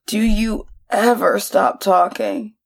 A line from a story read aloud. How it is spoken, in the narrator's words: Brienne growled